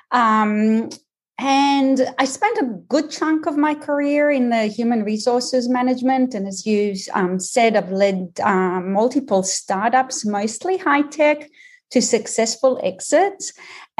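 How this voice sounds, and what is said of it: Mixed Israeli, Australian, American accent. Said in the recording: “people don't spend time just trying to work out my accent, is that I am Israeli, Australian, and American”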